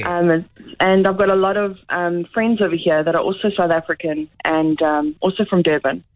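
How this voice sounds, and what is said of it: South African accent. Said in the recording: “I'm so glad your accent has remained.”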